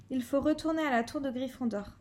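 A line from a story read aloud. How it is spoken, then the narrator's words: Plain. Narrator (French): dit Ron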